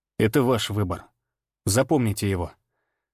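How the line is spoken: Plain. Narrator (Russian): сказал я

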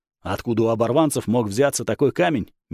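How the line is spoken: Incredulous snort. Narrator (Russian): недоверчиво хмыкнул Гао

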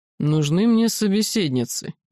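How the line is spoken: Displeased mutter. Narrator (Russian): недовольно буркнул Всеволод

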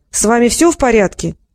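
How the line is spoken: Shouted. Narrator (Russian): крикнул

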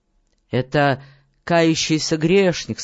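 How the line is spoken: Plain. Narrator (Russian): сказал он

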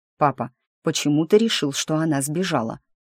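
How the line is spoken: Quiet question. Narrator (Russian): тихо спросил Лерой

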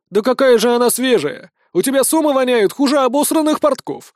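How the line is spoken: Man yelling. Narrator (Russian): выкрикнул какой-то мужик в рабочей одежде

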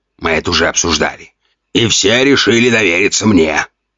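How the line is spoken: Growl. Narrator (Russian): рыкнул Ген

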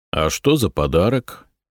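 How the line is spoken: Lazy question. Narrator (Russian): лениво поинтересовался Береслав

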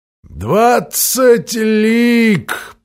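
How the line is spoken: Despairing moan. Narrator (Russian): простонал сеньор Кишкус

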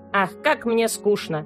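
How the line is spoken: Thin plaintive squeak. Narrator (Russian): пищала она своим жалобным, тоненьким голоском

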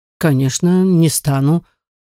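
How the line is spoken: Slightly disappointed. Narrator (Russian): отозвался барон несколько огорченным тоном

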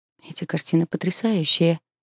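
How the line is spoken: Muttering. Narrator (Russian): бормочу я

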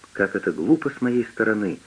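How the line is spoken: Irritated sigh. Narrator (Russian): вздохнула Хоуп не без раздражения

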